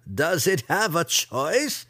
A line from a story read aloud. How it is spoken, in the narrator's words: Ben Ray laughed